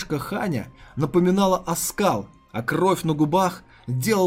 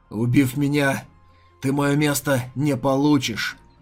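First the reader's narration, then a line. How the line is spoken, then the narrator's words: Hoarse wheeze. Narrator (Russian): прохрипел Ядзун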